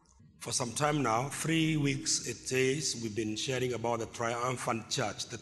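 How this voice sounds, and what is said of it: Weak, strained voice. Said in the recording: “My voice is not very strong, out of much use last week.”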